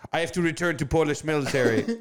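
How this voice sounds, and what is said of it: Poor put-on Polish accent. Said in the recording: “I was hoping we get a Polish accent. ... I don't think that was a very good Polish accent.”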